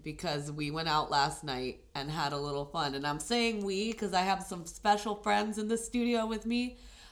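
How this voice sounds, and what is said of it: Sick, worn-out sounding voice. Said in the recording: “As you can hear in my voice, I'm a little gone slash sick”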